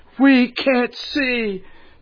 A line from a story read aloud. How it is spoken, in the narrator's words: So his people cried